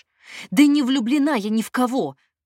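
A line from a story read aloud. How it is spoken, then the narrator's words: Shout. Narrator (Russian): крикнула Надя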